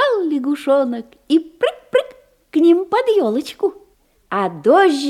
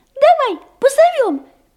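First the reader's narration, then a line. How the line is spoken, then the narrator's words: Field mouse squeak. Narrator (Russian): пискнула и полевая мышка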